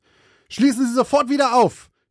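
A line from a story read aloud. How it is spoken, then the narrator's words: Shouting at someone. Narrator (German): schrie Cheryl den Tankwart an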